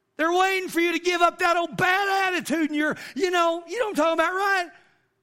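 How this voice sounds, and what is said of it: Yelling. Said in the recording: “I'm yelling”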